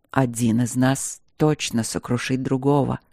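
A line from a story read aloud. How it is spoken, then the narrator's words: Quiet murmur. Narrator (Russian): ответил он тихо ей в висок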